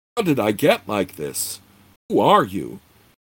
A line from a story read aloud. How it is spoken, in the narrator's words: in a more panicky tone, she continued